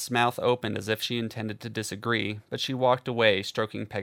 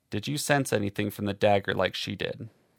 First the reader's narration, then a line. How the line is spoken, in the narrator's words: William asked in a low voice